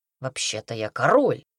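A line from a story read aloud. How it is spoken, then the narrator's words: Grumbling. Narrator (Russian): проворчал Редрик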